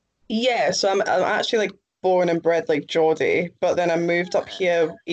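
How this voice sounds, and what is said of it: Mixed Geordie and Scottish accent. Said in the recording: “hence the accent's a little bit weird ... your accent is weird ... It's like a mix, I think.”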